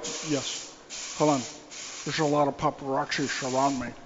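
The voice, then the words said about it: Sean Connery impression. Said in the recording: “do an impression of Sean Connery ... Excellent.”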